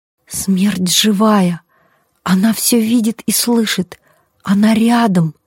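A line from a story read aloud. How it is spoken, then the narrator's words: Whispering. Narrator (Russian): прошептала Коломбина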